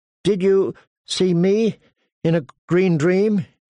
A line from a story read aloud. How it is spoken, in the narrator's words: He asked Jojen nervously